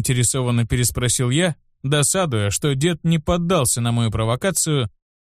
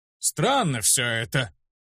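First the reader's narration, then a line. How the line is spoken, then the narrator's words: Thoughtful, after laughing. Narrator (Russian): Отсмеявшись, задумчиво произнес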